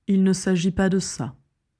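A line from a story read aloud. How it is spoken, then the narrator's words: Calm. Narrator (French): dit calmement Dumbledore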